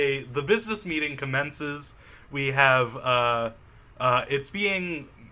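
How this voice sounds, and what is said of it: Usual voice. Nothing is said of it.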